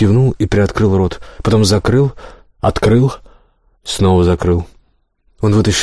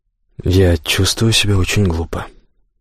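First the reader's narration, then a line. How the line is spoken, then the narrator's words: Muttered. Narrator (Russian): пробормотал он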